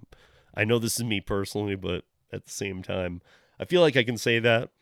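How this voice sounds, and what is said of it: Hoarse, strained voice. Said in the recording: “My voice is just destroyed. My throat is just destroyed. ... Got some head cold thing going on.”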